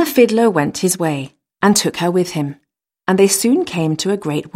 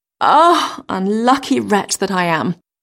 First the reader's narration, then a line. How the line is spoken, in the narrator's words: sighed she